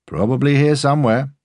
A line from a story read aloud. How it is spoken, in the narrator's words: the curator said cheerfully